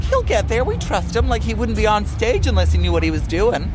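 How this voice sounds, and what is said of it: Good put-on American accent. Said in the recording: “You've just done a great American accent.”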